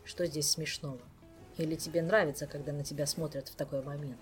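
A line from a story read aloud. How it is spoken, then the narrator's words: Plain. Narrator (Russian): спросил мистралиец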